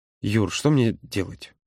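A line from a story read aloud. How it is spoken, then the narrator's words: Quiet. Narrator (Russian): тихо произнес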